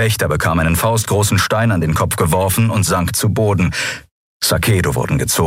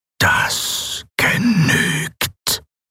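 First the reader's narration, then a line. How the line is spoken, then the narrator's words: Machine-like whisper. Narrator (German): flüsterte die maschinelle Stimme Sylravans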